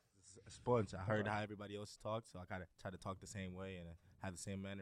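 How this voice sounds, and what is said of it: American-sounding accent. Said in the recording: “You sound like you're from the U.S. ... If you just said, like, I'm from Houston, Texas, I would be like, oh, yeah.”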